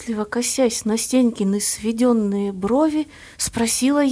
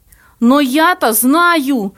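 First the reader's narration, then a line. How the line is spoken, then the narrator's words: Shout. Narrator (Russian): выкрикнул бледный Плоткин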